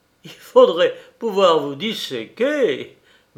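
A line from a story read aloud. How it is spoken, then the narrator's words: Laughing. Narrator (French): disait en riant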